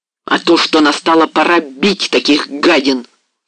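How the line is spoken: Furious cry, wolf. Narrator (Russian): вскрикнул бешено волк

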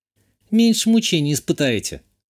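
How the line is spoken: Young woman's snort. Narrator (Russian): хмыкнула девушка

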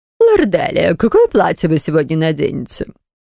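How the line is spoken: Affected mincing tone. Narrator (Russian): Жеманным тоном поинтересовался мастер по прическам

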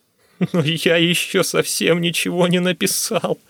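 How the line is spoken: Sobbing. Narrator (Russian): всхлипнул я

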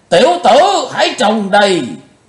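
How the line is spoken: Sudden roar. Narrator (Vietnamese): Lão Độc chợt gầm to

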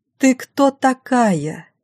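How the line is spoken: Loud question, mother. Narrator (Russian): Пашина мама спросила громко

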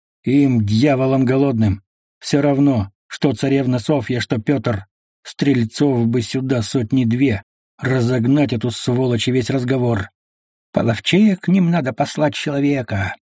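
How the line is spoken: Through gritted teeth. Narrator (Russian): сквозь зубы сказал Шакловитый

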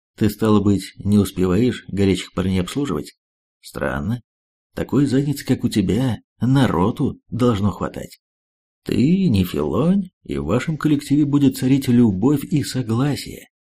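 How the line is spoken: Calm question. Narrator (Russian): спокойно ответил Хонда и поинтересовался

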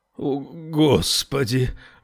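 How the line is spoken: Breathless, trembling voice. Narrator (Russian): выдохнул он, и голос его задрожал

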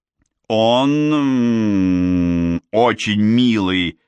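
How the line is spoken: Plain. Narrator (Russian): сказала я Мэдисон

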